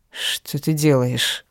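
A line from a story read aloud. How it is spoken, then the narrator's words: Hoarse. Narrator (Russian): хрипит он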